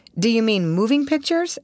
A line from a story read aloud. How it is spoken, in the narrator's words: asked Russ eagerly